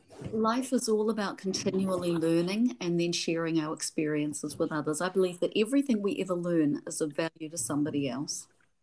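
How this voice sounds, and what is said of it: New Zealand accent. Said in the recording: “I have a Kiwi accent.”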